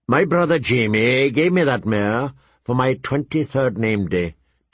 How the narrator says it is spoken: Tyrion said in a flat voice

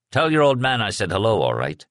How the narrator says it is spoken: Father O'Leary said

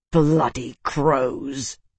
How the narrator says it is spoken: Isana snarled

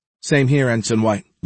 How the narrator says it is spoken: Layla replied

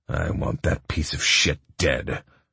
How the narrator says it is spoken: my father growled

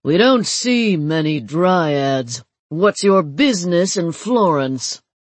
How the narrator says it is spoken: The lion's voice was a rumbling basso, and the aura of command he projected was unmistakable

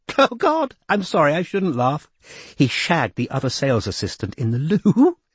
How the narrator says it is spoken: said, quaking with giggles

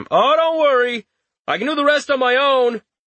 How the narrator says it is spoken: Richter shouted after him

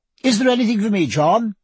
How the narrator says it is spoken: she cried

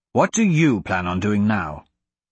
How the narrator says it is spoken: Royce asked Magnus

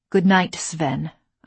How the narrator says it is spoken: I answered curtly

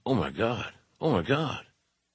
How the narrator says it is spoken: Lawler, also stunned, was muttering

